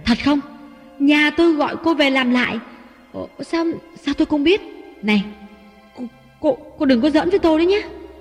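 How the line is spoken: Harsh, sharp. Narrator (Vietnamese): Ngọc gay gắt

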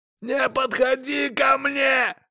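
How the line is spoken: Frantic scream. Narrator (Russian): Истошно закричал Эрик

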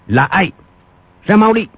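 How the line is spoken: Sharp shout. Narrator (Vietnamese): Quách Tĩnh quát lên

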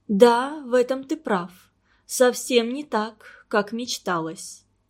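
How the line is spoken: Sighing. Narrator (Russian): вздохнула Нина Павловна

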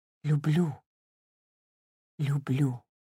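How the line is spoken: Whisper. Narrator (Russian): губы все шептали

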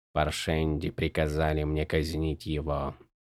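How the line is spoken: Quiet. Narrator (Russian): тихо сказал Зет

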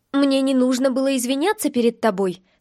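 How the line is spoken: Slightly angry, hurt question. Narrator (Russian): спросила я немного зло и одновременно обиженно

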